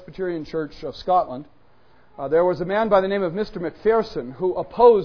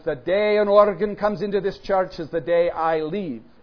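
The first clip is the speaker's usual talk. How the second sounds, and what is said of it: Put-on accent slipping into Irish. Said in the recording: “The accent sometimes becomes Irish”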